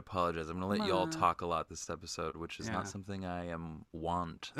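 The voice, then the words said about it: Slightly hoarse, sore-throated voice. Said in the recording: “I have a little bit of a sore throat”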